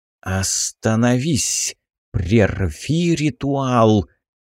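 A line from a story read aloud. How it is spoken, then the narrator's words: Commanding hiss. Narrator (Russian): повелительно прошипел голос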